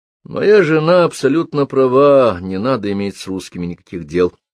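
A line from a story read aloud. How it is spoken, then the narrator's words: Sigh. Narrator (Russian): вздохнул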